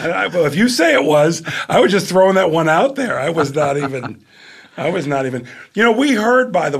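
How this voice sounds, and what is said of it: Usual voice. Nothing is said of it.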